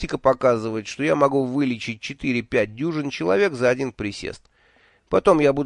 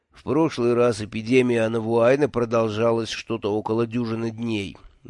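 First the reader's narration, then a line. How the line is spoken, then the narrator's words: Gloomy statement. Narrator (Russian): мрачно сообщил Джуфин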